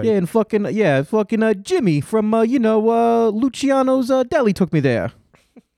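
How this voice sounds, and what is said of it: Put-on Italian-American paisano accent. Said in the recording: “You took my accent, which was meant to denote simply that you're a goofball, and turned it into, like, somehow you're literally a paisano”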